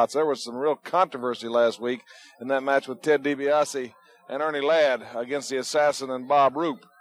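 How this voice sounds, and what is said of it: Hoarse, partly lost voice. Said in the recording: “I lost my voice. I haven't quite recovered from it.”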